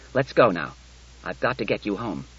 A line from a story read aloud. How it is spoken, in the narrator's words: He said curtly